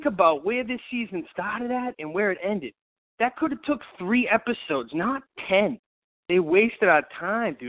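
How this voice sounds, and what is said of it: New York-sounding accent, not Canadian. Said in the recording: “that was definitely not a Canadian accent ... that's not an Ottawa accent. But it actually sounds like you when you do like your New Yorker accent.”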